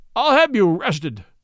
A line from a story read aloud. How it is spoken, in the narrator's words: he sobbed